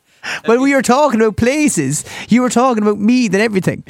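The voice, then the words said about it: Cork Irish accent. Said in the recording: “I assumed she knew by my accent where I was from”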